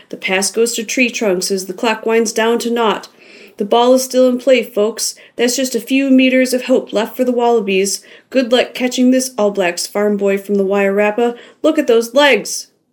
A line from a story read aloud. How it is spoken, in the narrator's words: Jim hollered, making himself hoarse